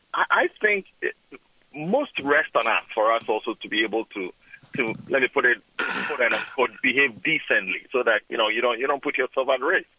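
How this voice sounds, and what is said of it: African accent. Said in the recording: “I detect from your accent that you're originally from Africa.”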